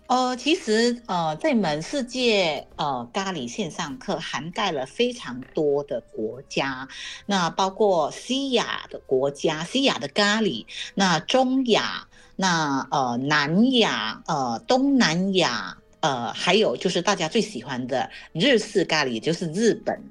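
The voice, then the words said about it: Malaysian-accented Mandarin. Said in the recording (Chinese): “这个听老师口音，其实大家会想说，哎，老师是哪里人？其实老师是马来西亚人哈”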